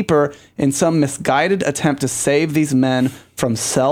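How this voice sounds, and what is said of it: Usual voice. Nothing is said of it.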